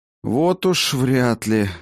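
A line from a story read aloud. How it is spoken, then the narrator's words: Breathed out. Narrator (Russian): выдохнул Хаген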